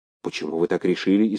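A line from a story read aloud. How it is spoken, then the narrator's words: Frightened question. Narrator (Russian): испуганно спросил Полынов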